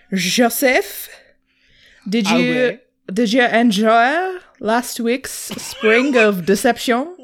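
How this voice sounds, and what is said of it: Exaggerated parody French accent. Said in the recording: “What is this accent you're doing? ... This is a French accent ... a television parody of a French accent”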